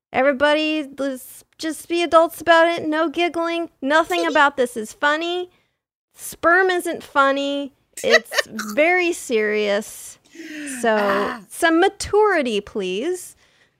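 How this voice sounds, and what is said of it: Teacher voice, New England accent. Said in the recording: “She brought out that New England accent.”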